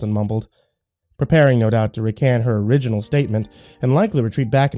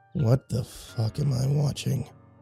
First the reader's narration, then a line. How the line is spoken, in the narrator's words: Dalton mumbled